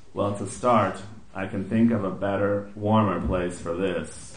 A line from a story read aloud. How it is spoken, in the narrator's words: she murmured